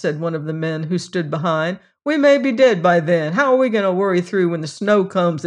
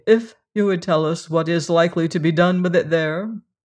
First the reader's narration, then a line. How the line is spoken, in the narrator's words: said Sewell dryly